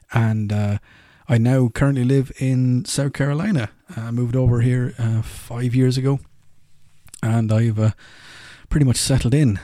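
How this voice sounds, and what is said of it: Irish brogue. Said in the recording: “As you can tell, Irish. I have the lovely Irish brogue going on.”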